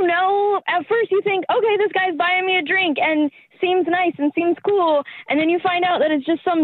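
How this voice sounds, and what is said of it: Usual voice. Nothing is said of it.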